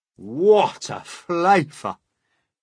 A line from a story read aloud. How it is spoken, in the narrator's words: the centipede cried